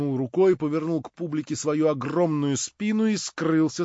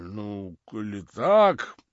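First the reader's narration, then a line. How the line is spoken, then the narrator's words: Muttered. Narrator (Russian): Капитан пробормотал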